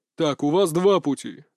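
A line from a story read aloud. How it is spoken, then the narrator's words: Menacing address. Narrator (Russian): грозно обратился Доранд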